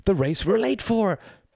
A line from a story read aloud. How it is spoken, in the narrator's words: panted Mr